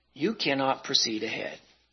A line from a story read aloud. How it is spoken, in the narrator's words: He whispered